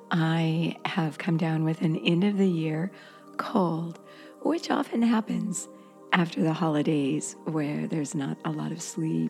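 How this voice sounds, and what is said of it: Slightly hoarse voice. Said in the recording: “excuse my voice. It's a little hoarse.”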